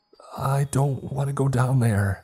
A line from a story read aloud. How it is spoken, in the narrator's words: stammered